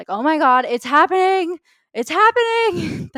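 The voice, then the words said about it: Yelling excitedly. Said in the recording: “Sorry for yelling in your ear.”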